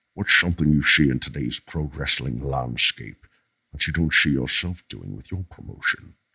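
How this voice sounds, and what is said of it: Sean Connery impression. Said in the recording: “This is Sean Connery... it's such a good impression.”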